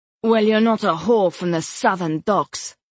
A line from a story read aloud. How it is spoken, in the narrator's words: Melis snapped